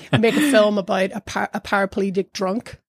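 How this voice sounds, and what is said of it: Imitated Dublin accent, Jim Sheridan. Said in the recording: “it would be in Jim's Dublin accent.”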